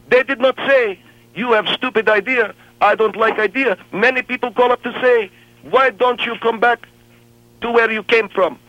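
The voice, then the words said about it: Thick foreign accent. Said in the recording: “I am foreign man. Because I speak with thick accent.”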